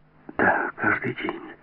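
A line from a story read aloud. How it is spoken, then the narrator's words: Whisper. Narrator (Russian): прошептала она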